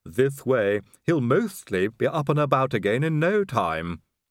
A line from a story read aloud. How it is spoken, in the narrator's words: he added brightly